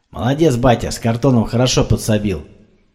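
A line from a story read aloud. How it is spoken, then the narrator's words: Muttering aloud. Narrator (Russian): Делясь своими мыслями вслух, бурчал Сергей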